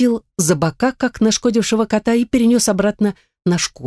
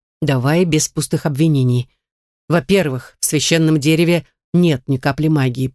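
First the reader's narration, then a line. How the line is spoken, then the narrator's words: Grumbling reptile. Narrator (Russian): проворчал ящер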